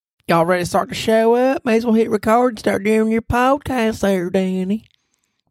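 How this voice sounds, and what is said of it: Put-on Southern US woman's voice. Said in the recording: “I'm your made-up girlfriend with a southern accent.”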